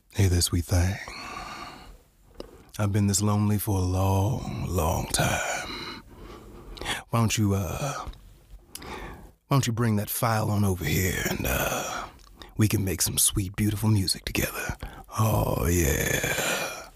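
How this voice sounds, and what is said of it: Cricket impression in deep crooner voice. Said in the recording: “my favorite cricket impression ... all crickets are Barry White to me”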